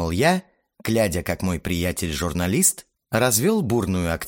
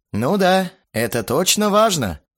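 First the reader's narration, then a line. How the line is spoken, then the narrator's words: Chuckling. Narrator (Russian): Хохотнул я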